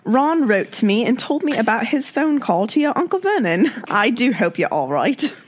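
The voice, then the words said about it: Jim Dale's Hermione voice impression. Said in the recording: “That's Jim Dale's Hermione voice.”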